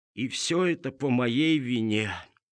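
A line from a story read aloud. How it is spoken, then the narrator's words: Heavy sigh. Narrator (Russian): тяжело вздохнул кум Тыква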